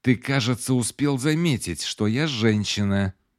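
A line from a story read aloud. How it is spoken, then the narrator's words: Hissing. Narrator (Russian): прошипела она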